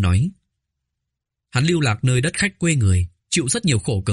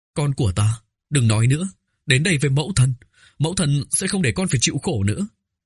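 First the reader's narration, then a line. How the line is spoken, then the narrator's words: Choked, tearful speech. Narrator (Vietnamese): rơi lệ, nghẹn ngào nói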